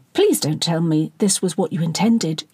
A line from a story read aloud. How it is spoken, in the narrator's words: asked calmly, masking the intensity of emotion she really felt